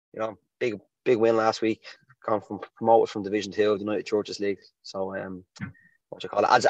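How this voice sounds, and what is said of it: Slightly hoarse voice. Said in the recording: “you can't tell by my voice, because we were celebrating out on Sunday, and I'm still a bit hoarse and still a bit stale”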